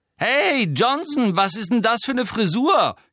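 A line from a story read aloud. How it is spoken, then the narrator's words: Shrieked from below. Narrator (German): kreischte Pansy Parkinson von unten herauf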